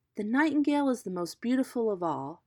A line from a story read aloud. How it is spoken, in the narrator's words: he exclaimed